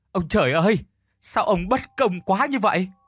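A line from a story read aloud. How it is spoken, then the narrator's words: Fake sympathetic sobbing. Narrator (Vietnamese): hắn thút thít làm bộ cảm thông, chia sẻ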